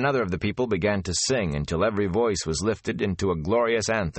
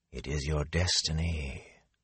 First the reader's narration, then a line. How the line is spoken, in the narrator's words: a voice whispered in his head